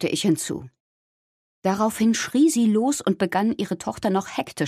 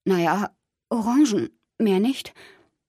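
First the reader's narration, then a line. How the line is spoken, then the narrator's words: Choked voice. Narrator (German): Ich antwortete mit erstickter Stimme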